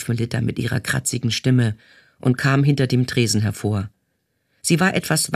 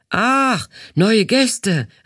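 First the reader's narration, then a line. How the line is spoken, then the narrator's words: Calling out. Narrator (German): rief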